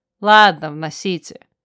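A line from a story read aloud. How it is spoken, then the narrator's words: Heavy sigh, permitting. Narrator (Russian): я тяжело вздохнула ... разрешив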